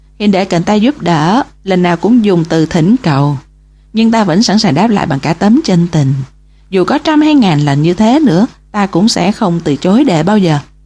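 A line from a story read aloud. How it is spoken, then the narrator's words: Smiling reply. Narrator (Vietnamese): Sở Giác mỉm cười đáp lại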